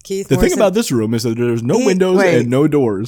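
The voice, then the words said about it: Keith Morrison impression. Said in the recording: “he did the voice for the Haunted Mansion ... Keith Morrison”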